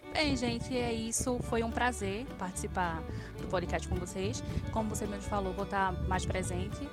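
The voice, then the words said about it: Brazilian Northeastern Pernambuco accent. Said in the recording (Portuguese): “Pernambucana, com esse sotaque lindo desse Nordeste maravilhoso”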